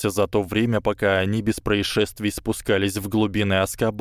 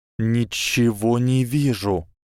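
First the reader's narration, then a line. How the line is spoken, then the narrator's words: Hissed. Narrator (Russian): прошипел Гарри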